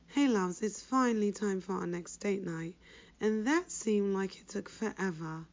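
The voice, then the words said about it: Sick, congested voice from cold. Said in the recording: “I caught a cold, as I'm sure you can hear from my voice”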